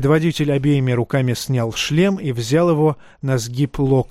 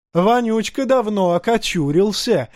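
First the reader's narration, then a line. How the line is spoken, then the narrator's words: Warrior laughing. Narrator (Russian): засмеялся воин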